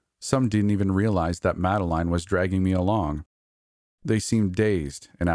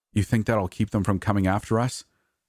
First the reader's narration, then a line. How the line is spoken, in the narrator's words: asked uneasily